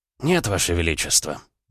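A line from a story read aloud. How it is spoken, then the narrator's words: Plain. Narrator (Russian): ответил Макаров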